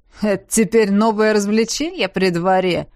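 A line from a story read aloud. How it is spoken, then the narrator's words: Sarcastic question. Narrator (Russian): язвительно осведомился он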